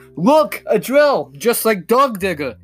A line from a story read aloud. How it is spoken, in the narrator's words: shouted